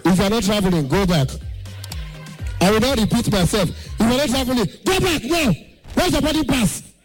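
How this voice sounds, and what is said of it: Shouting an announcement. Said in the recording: “Why are you shouting? Why are you shouting at us?”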